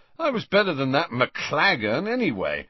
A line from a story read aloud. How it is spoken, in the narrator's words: said Ron in a highly satisfied voice